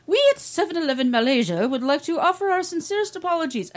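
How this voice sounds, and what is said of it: Put-on British accent. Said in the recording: “I don't know why Malaysians have a British accent, but that's what”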